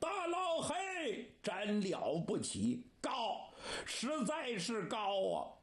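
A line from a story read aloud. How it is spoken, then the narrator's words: Shout. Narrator (Chinese): 程咬金就喊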